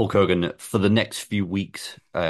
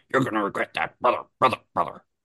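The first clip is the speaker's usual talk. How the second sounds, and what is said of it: Bad imitation of another person's voice. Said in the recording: “worst Hulk Hogan impression I've ever heard in my life”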